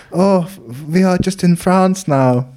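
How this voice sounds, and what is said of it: Put-on German accent. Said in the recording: “I'm doing a lot of German accents recently.”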